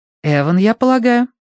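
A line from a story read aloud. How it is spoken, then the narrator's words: Soothing voice. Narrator (Russian): мама говорила специальным голосом, которым она обычно успокаивает нервных людей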